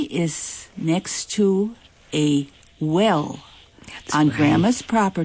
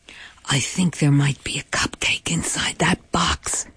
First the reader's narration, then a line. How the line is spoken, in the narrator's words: Bob whispers to me